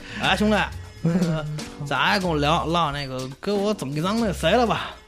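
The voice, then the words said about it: Northeastern Chinese accent, brash tone. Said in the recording (Chinese): “东北口音，然后挺冲的进来”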